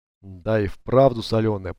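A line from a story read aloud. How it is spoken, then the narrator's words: Mumble. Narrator (Russian): пробормотал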